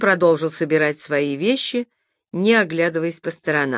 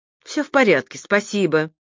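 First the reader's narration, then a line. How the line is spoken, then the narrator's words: Breathless, forced out. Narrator (Russian): задыхаясь, выдавила из себя Трейси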